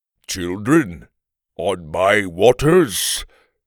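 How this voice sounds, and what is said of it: Growling voice, heavy accent. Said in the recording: “the man growled in a heavy accent”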